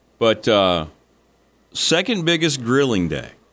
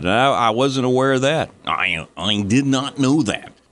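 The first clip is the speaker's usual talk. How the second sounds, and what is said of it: Poor imitation of another person's voice. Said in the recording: “my very bad Johnny Carson impersonation”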